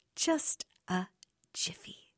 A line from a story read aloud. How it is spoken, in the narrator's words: she replied slowly for effect